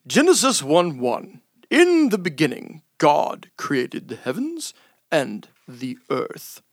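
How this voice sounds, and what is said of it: Lowered, solemn reading voice. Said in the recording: “lower my voice a little to make it seem important”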